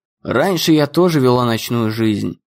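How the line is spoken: Sighing. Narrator (Russian): вздохнула Нелли

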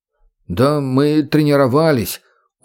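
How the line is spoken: Dejected. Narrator (Russian): уныло добавил второй

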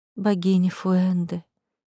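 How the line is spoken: Quiet. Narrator (Russian): тихо вымолвила Мелисса

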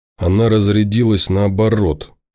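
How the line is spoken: Dejected voice. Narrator (Russian): поникшим голосом произносит Павел

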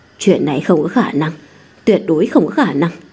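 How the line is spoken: Disbelieving muttering. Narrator (Vietnamese): các thiền sư trong miệng lẩm bẩm nói

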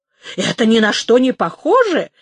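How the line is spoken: Indignant exclamation. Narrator (Russian): воскликнул с негодованием майор

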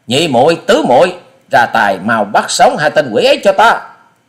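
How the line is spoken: Young woman's angry shout. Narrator (Vietnamese): Thiếu nữ áo xanh giận dữ quát

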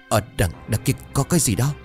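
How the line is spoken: Trembling voice. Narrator (Vietnamese): Thằng kia run rẩy ... bảo

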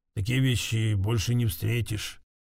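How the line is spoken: Mumbled. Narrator (Russian): пробормочет

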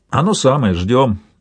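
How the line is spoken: Plain. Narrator (Russian): говорит другой

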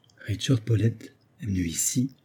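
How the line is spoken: Low murmur. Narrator (French): murmura-t-il à voix basse

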